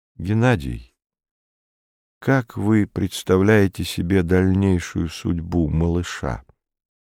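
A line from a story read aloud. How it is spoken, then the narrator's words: Sudden very quiet question. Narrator (Russian): вдруг очень тихо спросил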